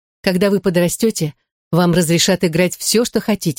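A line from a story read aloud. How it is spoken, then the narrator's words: Plain. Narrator (Russian): сказала она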